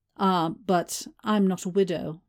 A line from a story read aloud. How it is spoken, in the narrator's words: Mai said